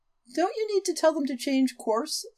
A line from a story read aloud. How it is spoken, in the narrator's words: Celeste murmured